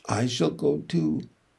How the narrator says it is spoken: she said softly

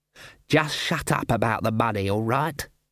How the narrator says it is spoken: hissed Ashfelt

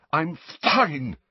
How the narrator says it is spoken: Harry choked, shaking uncontrollably

